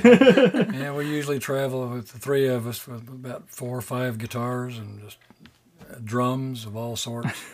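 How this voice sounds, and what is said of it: Rough, flu-affected voice. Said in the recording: “pardon the voice ... we're struggling with flu season, so yeah, we have it. But it's a good radio voice”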